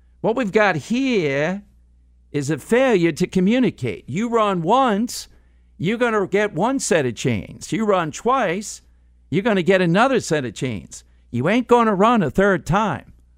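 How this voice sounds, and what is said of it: Impression of Cool Hand Luke character. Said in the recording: “Cool Hand Luke ... Your impressions are beautiful ... That's a pretty good impression of the guy”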